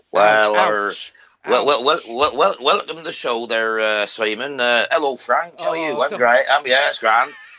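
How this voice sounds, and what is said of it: Put-on Irish-sounding accent. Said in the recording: “Are they from Ireland? What was that accent?”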